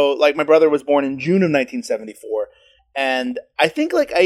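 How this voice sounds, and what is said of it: Usual voice. Nothing is said of it.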